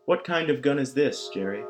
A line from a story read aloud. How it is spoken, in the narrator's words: she asked